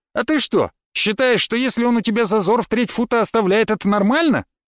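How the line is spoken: Yelling back. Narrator (Russian): заорал я в ответ

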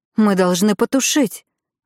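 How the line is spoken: Exclaiming. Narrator (Russian): воскликнула мама

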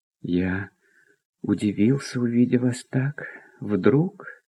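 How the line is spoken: Hesitant mutter. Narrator (Russian): пробормотал было князь

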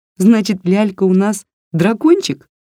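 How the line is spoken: Giggled. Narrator (Russian): хихикнула Варя

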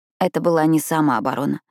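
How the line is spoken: Quiet reply. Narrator (Russian): тихо ответила Пиппа

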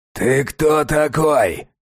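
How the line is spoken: Barked. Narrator (Russian): рявкнул человек из норы

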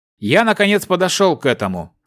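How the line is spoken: Snorting, magister. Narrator (Russian): хмыкнул магистр Оникс

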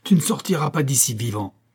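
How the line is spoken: Exclaimed. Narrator (French): s'écria-t-il

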